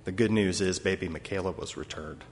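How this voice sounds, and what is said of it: Choked up, emotional voice. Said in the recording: “I still get choked up thinking about that.”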